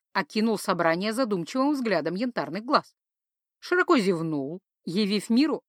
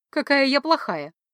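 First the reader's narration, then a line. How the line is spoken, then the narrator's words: Giggling. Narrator (Russian): хихикнула я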